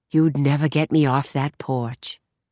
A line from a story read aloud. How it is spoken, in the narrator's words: Rose sighed